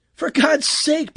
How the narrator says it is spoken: Peterson exclaimed

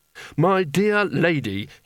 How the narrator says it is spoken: said desperately

